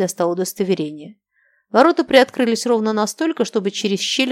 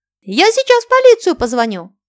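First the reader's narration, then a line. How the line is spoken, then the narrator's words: Shrill female voice. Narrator (Russian): прозвучал визгливый женский голос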